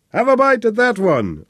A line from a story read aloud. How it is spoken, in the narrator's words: shouted happily